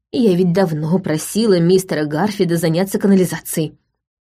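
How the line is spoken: Grumbling. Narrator (Russian): проворчала Райт

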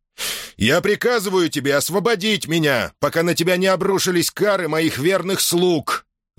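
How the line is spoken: Full-force commanding yell. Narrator (Russian): Заорал во всю командорскую мощь

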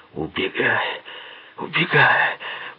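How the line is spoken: Moaning. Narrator (Russian): простонал он

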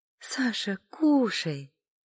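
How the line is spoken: Drawled through pursed lips. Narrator (Russian): протянула Эля, сложив губы трубочкой

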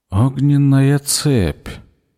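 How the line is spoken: Slow mutter. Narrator (Russian): медленно пробормотал Зед

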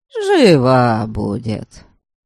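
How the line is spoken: Consoling young man. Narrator (Russian): Утешил его парень

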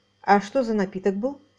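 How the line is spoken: Plain. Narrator (Russian): спросил Оутс

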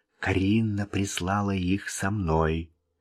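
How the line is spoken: Whisper. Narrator (Russian): Вик прошептал

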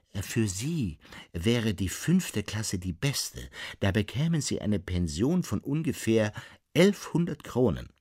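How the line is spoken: Plain. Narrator (German): sagte

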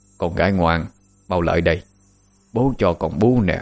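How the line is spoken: Man speaking softly. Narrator (Vietnamese): Ông nhỏ giọng nói

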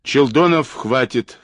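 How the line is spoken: Stern interruption. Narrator (Russian): строго перебил его Осипов

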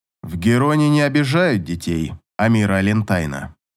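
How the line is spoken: Even, steady voice. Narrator (Russian): ровным голосом поддержал король

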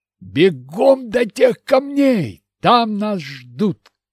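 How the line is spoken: Shout. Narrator (Russian): крикнул Игорь

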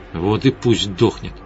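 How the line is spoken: Mutter. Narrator (Russian): пробормотала Светлана

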